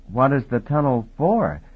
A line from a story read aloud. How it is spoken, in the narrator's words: He asked timidly